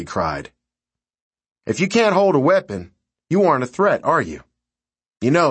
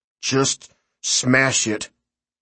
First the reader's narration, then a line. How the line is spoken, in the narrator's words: Claude muttered